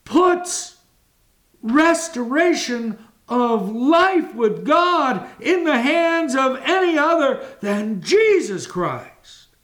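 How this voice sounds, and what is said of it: Raised, loud preaching voice. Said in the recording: “Am I raising my voice? You're damn right I am.”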